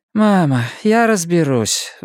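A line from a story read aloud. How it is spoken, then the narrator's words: Sigh. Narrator (Russian): вздохнул Нгуен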